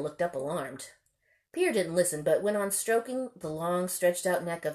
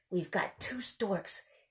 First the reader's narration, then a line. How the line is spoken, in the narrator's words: he mumbled queerly to Lena, as if only now was the fact beginning to dawn on him